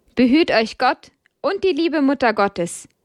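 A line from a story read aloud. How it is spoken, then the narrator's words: Brother calling after. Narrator (German): rief der Bruder ihnen nach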